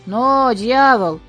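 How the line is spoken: Hoarse shout, old man. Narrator (Russian): хрипло закричал дед

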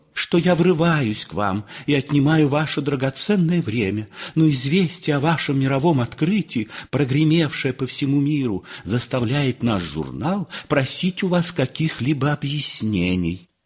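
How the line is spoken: Thin high voice. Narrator (Russian): заговорил молодой человек тонким голосом

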